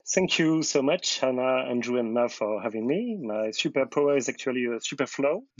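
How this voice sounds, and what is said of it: French-accented English. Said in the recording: “from France ... my horrible accent and really bad pronunciation”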